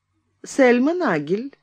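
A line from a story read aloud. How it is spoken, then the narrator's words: Lazy reply. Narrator (Russian): лениво отозвалась Сельма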